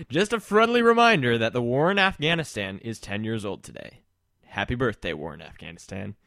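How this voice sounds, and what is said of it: Announcer voice. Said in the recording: “my announcer voice”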